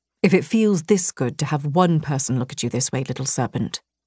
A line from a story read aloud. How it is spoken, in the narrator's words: Vincent murmured